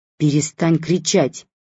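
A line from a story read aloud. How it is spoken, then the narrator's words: Sharp mother. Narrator (Russian): резко ответила мама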